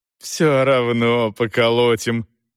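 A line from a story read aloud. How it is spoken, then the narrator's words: Chuckling. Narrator (Russian): хохотнул главарь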